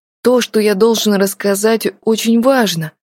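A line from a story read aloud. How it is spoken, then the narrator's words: Exclamation. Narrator (Russian): воскликнул Артур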